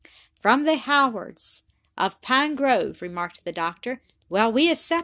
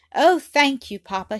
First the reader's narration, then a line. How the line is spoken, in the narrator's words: she cried in a transport of joy